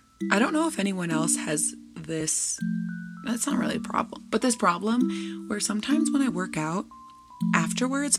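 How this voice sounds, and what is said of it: Slightly raspy voice. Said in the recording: “my voice sounds a little raspy ... my voice will get a little raspy sometimes, specifically if I'm doing cardio”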